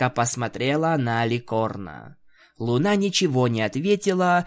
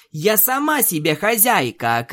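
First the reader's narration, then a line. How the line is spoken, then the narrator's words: Shouting. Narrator (Russian): крикнула Твайлайт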